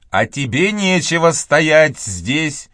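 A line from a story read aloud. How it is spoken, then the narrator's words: Loud, condescending lady. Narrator (Russian): обращаясь к Бобу, сказала леди громким голосом, предназначенным покрыть разделяющее их общественное, не физическое, расстояние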